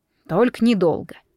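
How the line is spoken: Grumble. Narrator (Russian): пробурчал он

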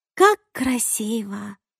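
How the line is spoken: Sighing. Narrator (Russian): вздохнула Кассандра

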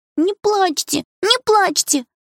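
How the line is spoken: Speaking through tears. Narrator (Russian): говорил он сквозь слезы

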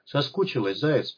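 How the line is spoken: Muttered. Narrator (Russian): пробормотал он

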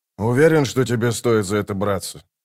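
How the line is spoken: Plain. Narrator (Russian): спросил он Калама

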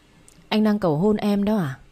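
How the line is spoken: Choked with emotion. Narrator (Vietnamese): Tôi nghẹn ngào xúc động đáp

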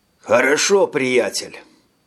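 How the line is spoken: Breathed out. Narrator (Russian): выдохнул Хольмер и усмехнулся

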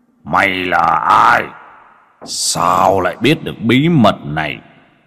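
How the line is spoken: Furious distorted roar. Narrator (Vietnamese): Ba khuôn mặt dưới hồ máu trở lên vặn vẹo, gầm lên tức tối

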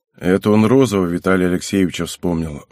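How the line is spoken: Sigh. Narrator (Russian): вздохнул Святов

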